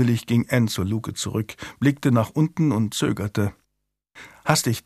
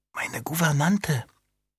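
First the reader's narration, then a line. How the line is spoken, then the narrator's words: Murmur. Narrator (German): raunte sie zu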